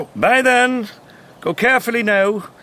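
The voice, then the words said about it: Put-on Scottish accent. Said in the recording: “All the accents to pick. Why, Scottish? ... Why do an accent at all?”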